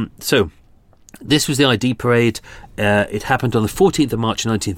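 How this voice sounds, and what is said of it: Usual voice. Nothing is said of it.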